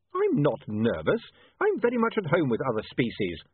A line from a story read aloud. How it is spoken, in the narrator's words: said William hotly